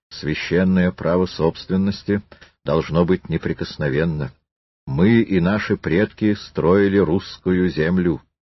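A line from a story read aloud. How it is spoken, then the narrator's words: Calm, clear speech. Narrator (Russian): дворянин говорил спокойно и отчетливо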